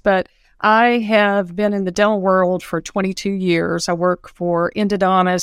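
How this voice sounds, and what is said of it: Southern American accent. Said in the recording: “I have a Southern accent.”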